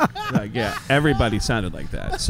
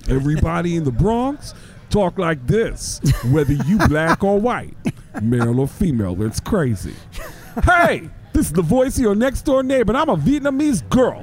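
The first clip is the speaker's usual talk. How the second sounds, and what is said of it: Put-on Bronx accent. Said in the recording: “from the Bronx, I always say everybody in the Bronx sounds like Tracy Morgan.”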